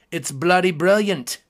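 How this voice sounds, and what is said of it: Bad put-on English accent. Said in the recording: “That was the worst English accent you have ever heard.”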